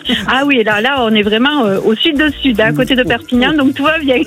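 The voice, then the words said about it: Southern French accent. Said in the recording (French): “l'accent que vous avez, vous êtes bien, bien en bas”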